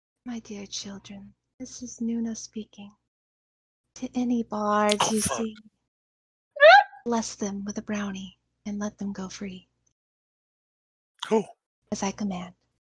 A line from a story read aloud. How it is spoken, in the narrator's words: She is going to use Twisted Whispers to say to them